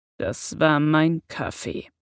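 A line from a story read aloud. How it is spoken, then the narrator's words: Growl. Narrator (German): knurrte Severus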